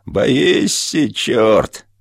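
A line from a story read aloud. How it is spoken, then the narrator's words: Thin gloating driver's shout. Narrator (Russian): возница начинал кричать тонким злорадным голосом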